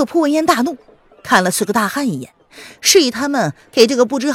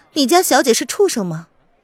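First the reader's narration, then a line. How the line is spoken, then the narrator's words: Cold sneer. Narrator (Chinese): 他不禁的勾唇冷笑，冷冷的看着那个恶仆说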